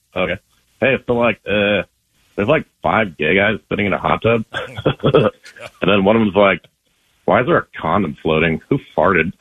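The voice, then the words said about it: Butthead impression. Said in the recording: “your impression ... It's Butthead.”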